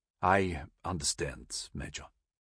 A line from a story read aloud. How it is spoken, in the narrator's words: Wolf said quietly